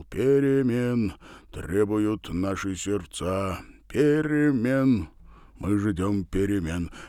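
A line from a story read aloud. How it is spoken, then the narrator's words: Deep bass voice. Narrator (Russian): пробасил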